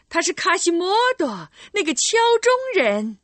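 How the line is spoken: Crowd shouting in unison. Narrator (Chinese): 人们异口同声的喊道

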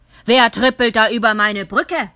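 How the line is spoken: Troll roaring. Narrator (German): brüllte der Troll

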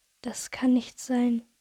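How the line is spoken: Whisper. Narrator (German): wisperte

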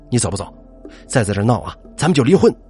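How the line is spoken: Angry, embarrassed. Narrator (Chinese): 他恼羞成怒

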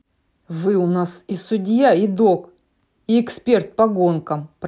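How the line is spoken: Grumbling. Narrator (Russian): проворчал Молния

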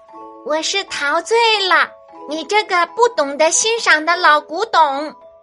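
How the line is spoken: Thin-voiced cry. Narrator (Chinese): 蝴蝶用细细的嗓音叫道

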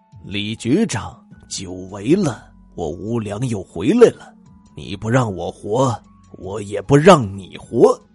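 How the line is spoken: Low menacing voice. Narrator (Chinese): 用阴森低沉的声音恶狠狠的说

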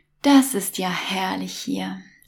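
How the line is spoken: Contented sigh. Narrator (German): seufzte Mom zufrieden

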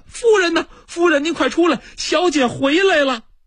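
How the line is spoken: Nurse calling while running. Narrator (Chinese): 这奶妈一路小跑就朝里边喊

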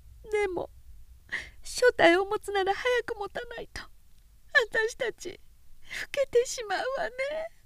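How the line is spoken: Quietly crying. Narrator (Japanese): おきは声を潜めて泣いた

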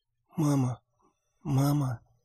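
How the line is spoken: Soft whisper. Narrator (Russian): тихо прошептала она

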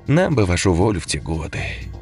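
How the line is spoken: Sad smiling collector. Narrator (Russian): грустно улыбнулся коллекционер

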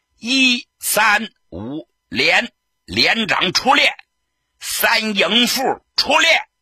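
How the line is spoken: Sudden shout. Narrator (Chinese): 他忽然大喊了一声

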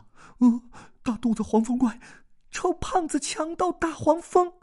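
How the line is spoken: Muttered group curses. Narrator (Chinese): 大家低声咒骂

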